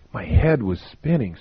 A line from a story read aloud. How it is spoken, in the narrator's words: said Frank